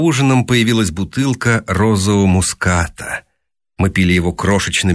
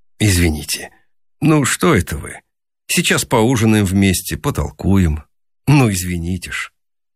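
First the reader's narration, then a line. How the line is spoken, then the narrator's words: Gentle, embarrassed. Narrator (Russian): ласково, смущенно сказал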